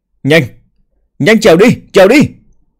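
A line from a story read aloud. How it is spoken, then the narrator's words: Terrified frantic shouting. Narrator (Vietnamese): kinh hãi đến biến sắc, gào lên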